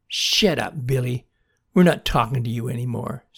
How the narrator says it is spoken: spat Lily

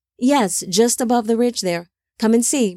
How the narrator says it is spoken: Methuselah said

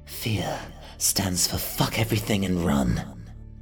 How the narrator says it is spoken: I whispered to Hunter internally

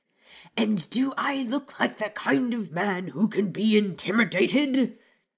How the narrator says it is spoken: Vernon barked

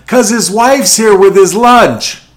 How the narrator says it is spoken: The worker yelled back

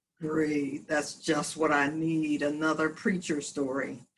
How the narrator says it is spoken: And the professor groaned and thought to himself

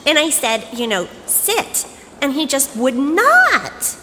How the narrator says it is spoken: she was whining

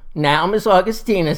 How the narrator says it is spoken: says Daddy

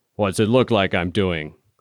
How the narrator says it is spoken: His voice was deep and rumbly like barrels going down a ramp

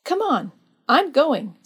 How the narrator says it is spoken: said Alberta, firmly

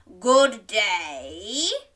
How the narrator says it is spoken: growled the wolf

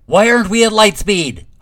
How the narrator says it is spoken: Huff shouted from the hall

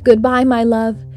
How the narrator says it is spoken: Echo cried to Narcissus from her cave deep in the woods

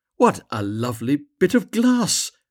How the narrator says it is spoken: cried the girl

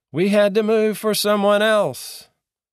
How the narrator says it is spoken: I yelled back

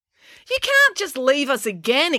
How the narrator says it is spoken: exclaimed April

